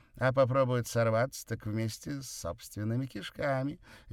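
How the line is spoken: Cheerful. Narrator (Russian): весело добавил Красин

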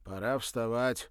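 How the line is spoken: Mocking snort. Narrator (Russian): хмыкнул ее мучитель

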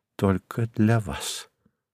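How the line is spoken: Whisper. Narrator (Russian): шепнув ему

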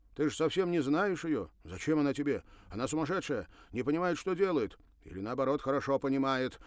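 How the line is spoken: Sarcastic. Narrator (Russian): язвительно говорил Бернар

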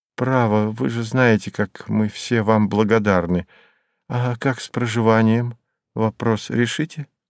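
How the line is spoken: Sad question. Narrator (Russian): Спросила так печально

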